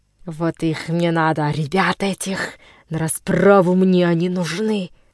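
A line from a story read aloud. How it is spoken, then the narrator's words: Rough shout. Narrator (Russian): грубо крикнул зуб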